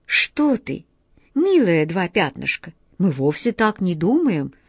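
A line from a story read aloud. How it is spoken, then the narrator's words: Soft, gentle. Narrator (Russian): мягко сказал капитан Тинтиныч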